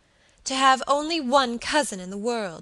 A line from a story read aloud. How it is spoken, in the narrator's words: she cried passionately